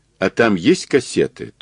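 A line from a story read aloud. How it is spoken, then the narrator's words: Dull voice. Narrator (Russian): тусклым голосом спросил Мазур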